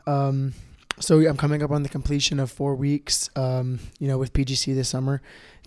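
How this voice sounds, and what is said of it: Scratchy, slightly hoarse voice. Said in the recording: “My voice is a little bit scratchy, a little bit hoarse just from using it so much, coaching, giving energy”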